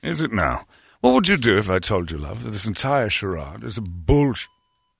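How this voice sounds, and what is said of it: Put-on regal British accent. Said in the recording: “British people... they sound regal... that's the most unbelievable accent I've ever heard... I don't talk like that.”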